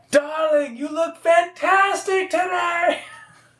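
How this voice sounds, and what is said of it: Screaming character voice, diner accent. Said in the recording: “basically just kind of like screaming and a little bit of a diner accent a little bit”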